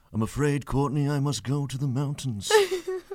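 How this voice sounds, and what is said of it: Imitates a TV character's voice. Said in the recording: “What is that voice? ... It's Jorah Mormont.”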